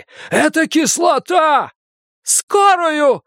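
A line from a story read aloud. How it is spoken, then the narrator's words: Shouting. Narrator (Russian): закричала Бакстер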